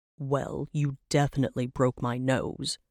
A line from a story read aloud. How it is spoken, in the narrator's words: he grumbled from the floor